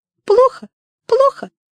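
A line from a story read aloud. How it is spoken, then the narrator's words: Squeaky bird voice. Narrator (Russian): Даже снегирь пропищал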